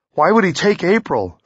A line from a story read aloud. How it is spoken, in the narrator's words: Theo blurted, his mouth dry with fear, his knees ready to buckle